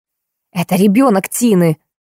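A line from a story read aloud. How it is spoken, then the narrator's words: Heavy sigh. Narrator (Russian): Я тяжело вздохнула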